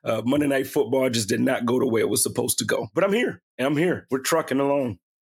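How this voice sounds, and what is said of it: Hoarse, strained voice. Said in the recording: “I don't sound like I'm feeling ... my voice is gone”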